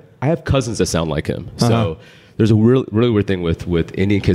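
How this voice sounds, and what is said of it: Usual voice. Nothing is said of it.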